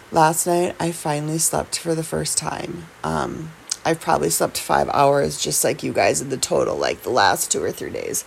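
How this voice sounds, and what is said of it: Raspy voice. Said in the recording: “my voice sounds raspy”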